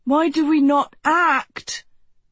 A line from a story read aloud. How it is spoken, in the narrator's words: Pen howled